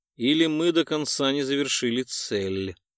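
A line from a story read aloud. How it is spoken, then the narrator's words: Thoughtful drawl. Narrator (Russian): задумчиво протянул Виллис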